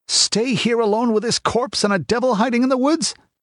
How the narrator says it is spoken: he yelped

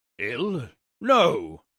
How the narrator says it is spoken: said crossly

